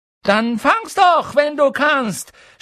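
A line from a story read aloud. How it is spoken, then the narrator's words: Shouting. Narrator (German): schrie er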